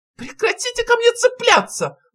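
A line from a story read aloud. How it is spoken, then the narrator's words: Shrieking. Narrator (Russian): взвизгнул профессор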